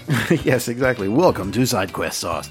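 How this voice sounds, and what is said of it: Radio announcer voice. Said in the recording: “This is my radio voice.”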